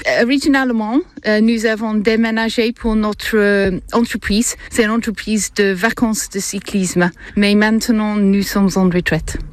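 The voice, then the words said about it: English accent speaking French. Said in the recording (French): “Et d'où vous vient cet accent? ... C'est anglais.”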